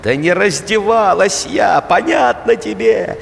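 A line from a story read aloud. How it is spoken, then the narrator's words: Shouting woman. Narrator (Russian): кричала какая-то женщина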